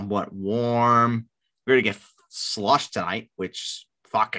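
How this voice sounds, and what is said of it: Usual voice. Nothing is said of it.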